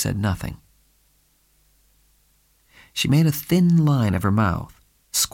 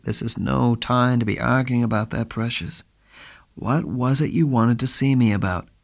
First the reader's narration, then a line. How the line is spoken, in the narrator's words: Spade said wearily